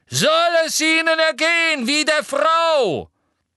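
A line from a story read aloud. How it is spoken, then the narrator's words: Centaur shouting. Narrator (German): ein brauner Zentaur schrie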